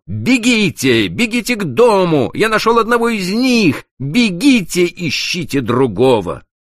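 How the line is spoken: Shouting over shoulder. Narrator (Russian): крикнув им через плечо

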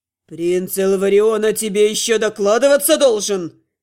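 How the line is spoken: Barked. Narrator (Russian): рявкнул Тёрн

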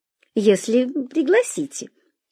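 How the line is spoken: Giggling. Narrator (Russian): хихикнула она

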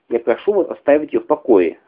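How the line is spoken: Sharp demanding tone. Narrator (Russian): резким тоном потребовала Летта поразительно

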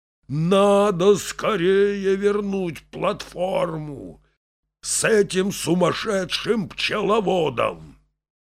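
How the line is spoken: Groaning. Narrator (Russian): Начальник станции застонал сильнее и сказал

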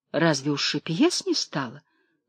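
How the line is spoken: Gently reproachful question. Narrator (Russian): ласково-укоризненно спросила Настасья Ивановна

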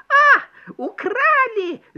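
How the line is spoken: Shrieking mouse. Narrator (Russian): завопила мышь

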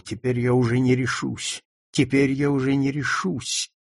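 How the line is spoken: Whispered. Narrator (Russian): Он шептал

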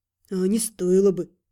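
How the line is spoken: Grumbled, fox. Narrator (Russian): проворчал лис

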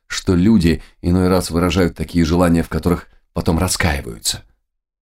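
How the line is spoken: Quiet voice. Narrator (Russian): тихим голосом ответила Христина

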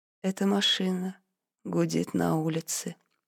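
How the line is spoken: Muttered. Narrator (Russian): пробормотал он

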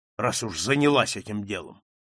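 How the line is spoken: Rough. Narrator (Russian): грубо ответил он

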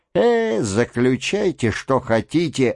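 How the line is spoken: Tired disgusted voice. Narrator (Russian): ответил он усталым и брезгливым голосом

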